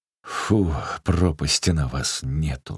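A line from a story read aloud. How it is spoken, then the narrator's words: Loud sighing. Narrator (Russian): шумно вздохнул Захар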